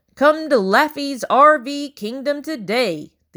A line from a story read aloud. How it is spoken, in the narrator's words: the announcer's voice boomed